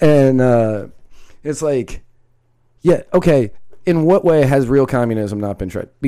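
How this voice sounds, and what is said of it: Usual voice. Nothing is said of it.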